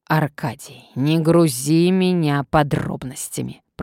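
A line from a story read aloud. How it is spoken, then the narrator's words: Commanding hiss. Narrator (Russian): прошипел властный голос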